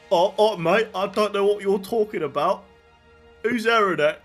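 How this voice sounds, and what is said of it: American attempting a British accent. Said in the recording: “That's my best American doing a British accent.”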